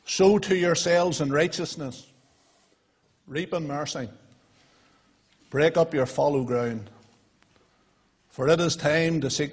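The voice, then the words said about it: Northern Irish County Armagh accent. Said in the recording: “this County Armagh accent”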